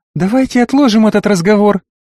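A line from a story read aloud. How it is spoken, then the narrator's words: Cooing. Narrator (Russian): проворковала Юка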